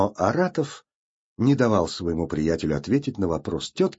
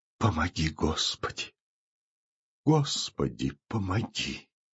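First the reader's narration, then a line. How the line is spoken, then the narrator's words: Whispered repetition. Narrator (Russian): Платонида Ивановна шепотом повторяя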